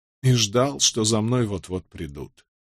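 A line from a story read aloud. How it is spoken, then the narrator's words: Barely audible mumble after pause. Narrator (Russian): Помолчав, Овертон пробормотал едва слышно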